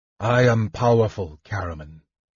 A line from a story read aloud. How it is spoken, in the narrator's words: Raistlin said, staring coldly